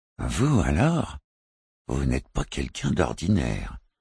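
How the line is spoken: Murmured. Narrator (French): murmura-t-il

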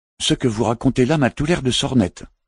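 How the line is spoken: Irritated barking. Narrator (French): aboya Philippe Asmussa irrité

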